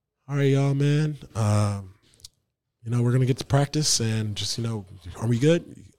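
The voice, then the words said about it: Imitates another person's voice. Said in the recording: “good Jason Kidd impersonation”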